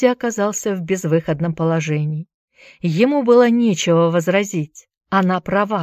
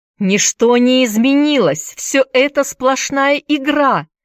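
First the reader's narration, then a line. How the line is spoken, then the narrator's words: Exclaimed. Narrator (Russian): воскликнул Энди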